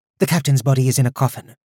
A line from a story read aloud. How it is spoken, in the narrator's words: Roshan said in a tight voice